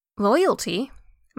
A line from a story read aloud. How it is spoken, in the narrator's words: March asked